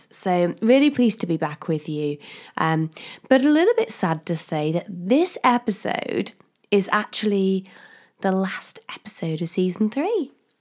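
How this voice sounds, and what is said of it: Slightly croaky voice. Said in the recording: “I've had a cold ... my voice isn't too croaky still”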